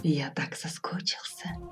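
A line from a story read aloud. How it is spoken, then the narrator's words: Passionate whisper. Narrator (Russian): страстно шепнул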